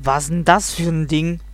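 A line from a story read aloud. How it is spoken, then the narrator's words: Bear's growl. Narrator (German): knurrt der Bär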